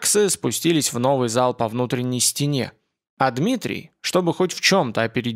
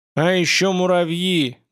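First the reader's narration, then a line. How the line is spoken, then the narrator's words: Bitter shout. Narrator (Russian): горько кричал Дмитрий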